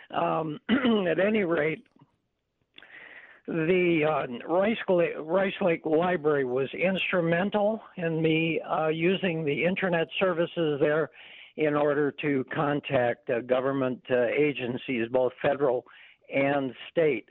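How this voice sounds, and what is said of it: Strained, failing voice. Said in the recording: “excuse me, I'm sorry. ... I'm sorry, I lost my voice here.”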